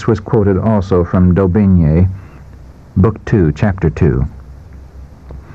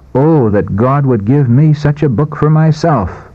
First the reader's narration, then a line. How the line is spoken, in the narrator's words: With quickened pulse and throbbing heart, he read for himself the words of life, pausing now and then to exclaim